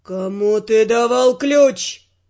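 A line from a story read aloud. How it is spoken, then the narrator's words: Barking. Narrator (Russian): рявкнул Эрл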